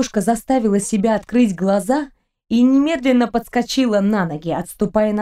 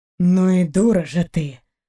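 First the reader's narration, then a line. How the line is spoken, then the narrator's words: Grumbling nearby. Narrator (Russian): проворчали рядом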